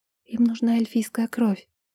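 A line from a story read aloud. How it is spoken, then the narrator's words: Near-silent whisper. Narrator (Russian): почти беззвучно прошептала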